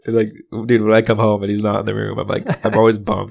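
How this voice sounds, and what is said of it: Rough, worn-out voice. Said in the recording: “just lack of sleep. So I apologize for my voice.”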